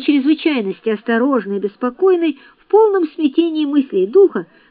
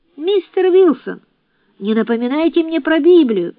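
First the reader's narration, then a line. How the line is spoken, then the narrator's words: Exclamation. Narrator (Russian): воскликнул Джордж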